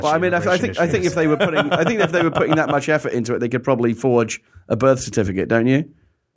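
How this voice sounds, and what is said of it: English accent with Australian twang. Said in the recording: “having lived here for 15 years has put like a weird twang on my accent, which means it's weird ... When I go back home to England, my regular accent comes back”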